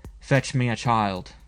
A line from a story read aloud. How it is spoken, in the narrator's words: ordered curtly